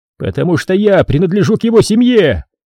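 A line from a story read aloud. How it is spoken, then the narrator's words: Shouted. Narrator (Russian): крикнул Тараон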